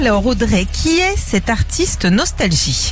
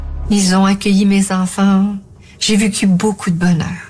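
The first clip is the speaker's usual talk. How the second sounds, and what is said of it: Imitates another person's voice, slight accent. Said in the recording (French): “Il y avait ce petit accent. Oui, tu le fais mieux quand même.”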